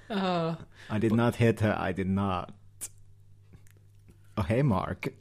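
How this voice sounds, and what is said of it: Imitates another person's accented voice. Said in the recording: “It only works for the accent”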